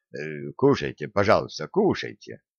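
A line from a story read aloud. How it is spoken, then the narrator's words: Barely audible old man. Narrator (Russian): едва слышно сказал старик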